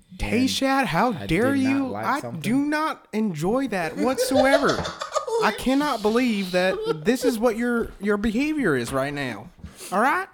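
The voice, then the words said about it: Impression of a stern, upset white man. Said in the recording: “I've heard white people try to sound serious, like they're upset with me ... I was doing my best white man impression. ... That was a great fucking impression.”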